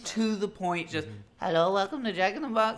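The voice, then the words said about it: Imitates another person's voice. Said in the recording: “That was her accent.”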